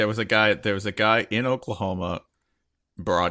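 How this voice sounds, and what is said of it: Usual voice. Nothing is said of it.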